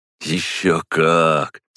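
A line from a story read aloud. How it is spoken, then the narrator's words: Dreamy drawl. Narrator (Russian): мечтательно протянул он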